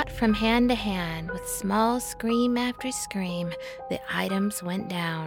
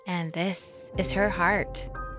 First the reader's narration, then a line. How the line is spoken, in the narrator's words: said the husband